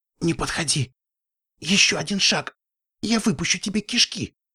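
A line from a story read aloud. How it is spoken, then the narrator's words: Loud whisper. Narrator (Russian): громко прошептала она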